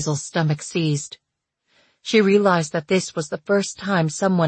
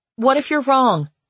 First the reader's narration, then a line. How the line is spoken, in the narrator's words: she called out